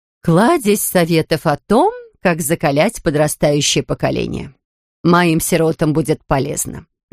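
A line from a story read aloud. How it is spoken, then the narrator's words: Plain. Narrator (Russian): говорит она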